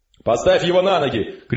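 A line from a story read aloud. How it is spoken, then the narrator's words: Shouted. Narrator (Russian): крикнул офицер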